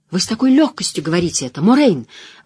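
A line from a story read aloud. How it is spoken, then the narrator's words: Exclaiming. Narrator (Russian): воскликнула Найниф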